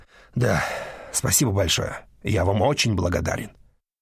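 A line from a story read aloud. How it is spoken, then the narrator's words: Exhaled. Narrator (Russian): Вест выдохнул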